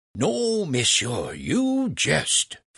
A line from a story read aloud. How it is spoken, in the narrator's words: Franklin exclaimed